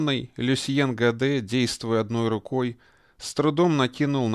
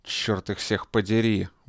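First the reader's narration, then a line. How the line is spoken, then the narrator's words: Muttering. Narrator (Russian): бормотал он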